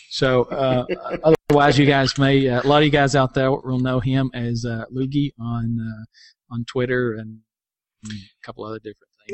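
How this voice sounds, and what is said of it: Southern hillbilly accent. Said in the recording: “my hillbilly accent doesn't pronounce things”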